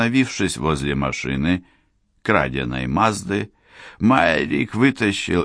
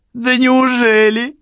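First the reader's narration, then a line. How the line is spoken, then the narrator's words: Laughing. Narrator (Russian): засмеялась Черил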